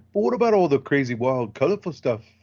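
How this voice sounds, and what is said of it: Bad imitation of another person's voice. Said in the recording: “Sound like Ringo Starr again... my bad Taika impression”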